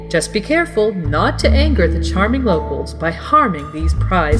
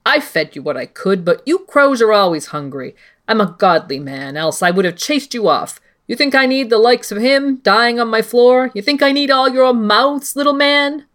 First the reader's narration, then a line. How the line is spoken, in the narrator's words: The wildling spat